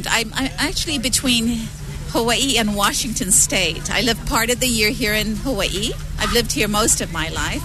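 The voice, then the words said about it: Slight Australian accent. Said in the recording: “you have that hint of an accent. ... Australian.”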